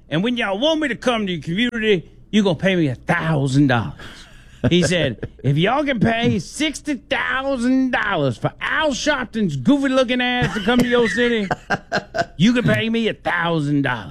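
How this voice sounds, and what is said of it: Imitates another person's voice. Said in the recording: “That's a pretty good impersonation there, man.”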